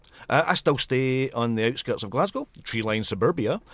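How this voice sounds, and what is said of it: Welsh-sounding accent. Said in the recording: “That was a Welsh accent again there”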